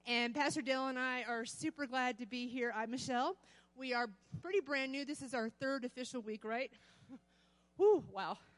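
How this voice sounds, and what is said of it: Breathless, out-of-breath speech. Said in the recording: “I'm already out of breath.”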